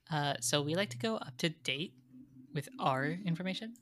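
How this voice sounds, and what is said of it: Put-on Valley Girl accent. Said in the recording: “you do, like, a really respectable Valley Girl accent”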